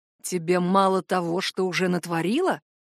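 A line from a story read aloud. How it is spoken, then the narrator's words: Hissing in her face. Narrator (Russian): прошипел ей в лицо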